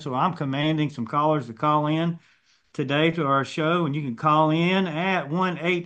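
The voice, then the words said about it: Country accent. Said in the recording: “I'm the only one here with the country accent”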